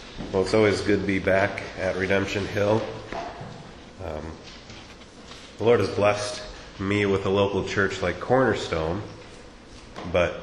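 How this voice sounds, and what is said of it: Congested, slightly altered voice. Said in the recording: “my voice is a little different. I'm struggling with a cold.”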